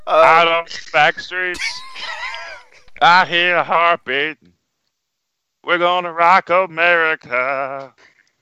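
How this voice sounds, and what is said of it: Singing in a Gomer Pyle voice. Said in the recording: “Why don't you sing it in your Gomer Pop voice?”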